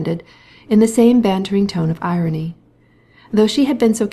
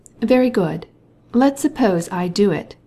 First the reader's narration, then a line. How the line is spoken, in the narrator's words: she said